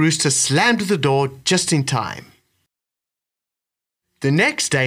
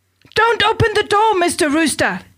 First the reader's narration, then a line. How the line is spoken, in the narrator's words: shouted